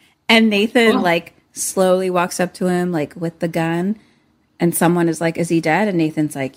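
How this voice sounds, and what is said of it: Usual voice. Nothing is said of it.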